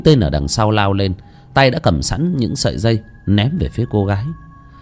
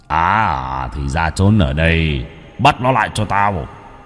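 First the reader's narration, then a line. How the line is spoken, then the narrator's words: Deep gruff voice. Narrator (Vietnamese): cất tiếng ồm ồm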